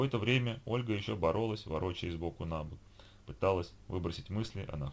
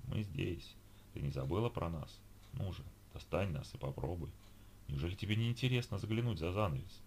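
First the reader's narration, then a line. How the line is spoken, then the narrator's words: Whispering voices. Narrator (Russian): Они точно шептали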